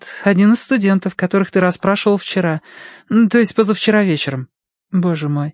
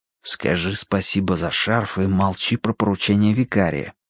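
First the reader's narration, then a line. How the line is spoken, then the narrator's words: Prompting in an undertone. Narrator (Russian): подсказал вполголоса Данворти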